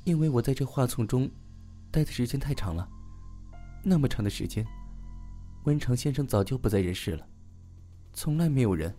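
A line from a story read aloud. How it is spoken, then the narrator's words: Low sobbing. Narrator (Chinese): 女魅低声的呜咽道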